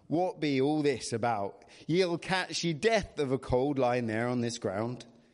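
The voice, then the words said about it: Reading a character line in an accent. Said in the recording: “I don't know whether I should do an accent... You can't do it without an accent.”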